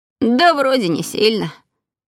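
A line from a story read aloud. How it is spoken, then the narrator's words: Grumbled. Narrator (Russian): пробурчал Мартин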